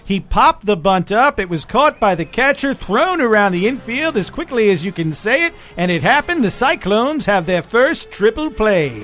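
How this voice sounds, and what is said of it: Announcer-style radio voice. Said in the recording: “you go into that other radio voice ... That's a certain voice that I've worked on for many years. I only do during baseball games.”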